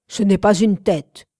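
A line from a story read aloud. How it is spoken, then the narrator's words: Growled. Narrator (French): gronda Rodin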